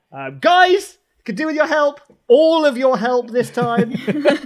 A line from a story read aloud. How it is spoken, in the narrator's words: Capella's just going to yell